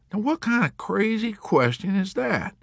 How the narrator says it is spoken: the Texan asked uneasily

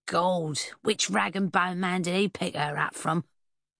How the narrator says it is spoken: One of her companions croaked

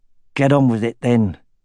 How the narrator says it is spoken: said through clenched teeth

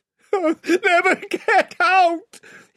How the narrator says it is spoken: yelled

